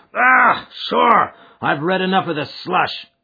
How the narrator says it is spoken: cried the chairman

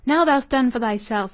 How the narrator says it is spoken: he cried in the dialect

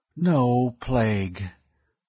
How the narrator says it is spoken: Weeks breathed a sigh of relief

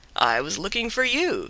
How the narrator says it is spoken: said Manabozho

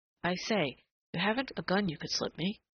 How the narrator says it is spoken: that agitated whisper

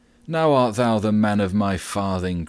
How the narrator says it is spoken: cried the messenger

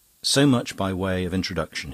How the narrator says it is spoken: he said

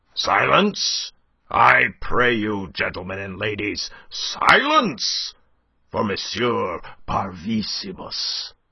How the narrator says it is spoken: roared Monsieur Binet

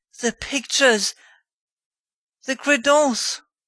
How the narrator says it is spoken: the baron cried out

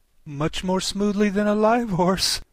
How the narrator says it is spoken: said, with a little scream of laughter, in spite of all she could do to prevent it

